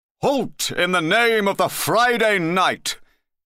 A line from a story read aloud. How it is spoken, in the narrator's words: he cried in a deep voice